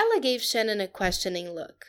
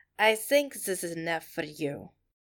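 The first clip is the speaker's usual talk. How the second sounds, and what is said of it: Thick Russian accent. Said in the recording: “she said in a thick Russian accent.”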